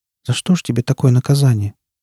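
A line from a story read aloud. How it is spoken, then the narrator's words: Sad question. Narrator (Russian): грустно спросила она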